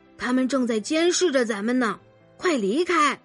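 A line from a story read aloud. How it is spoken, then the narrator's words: Quiet mumble. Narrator (Chinese): 他小声嘟囔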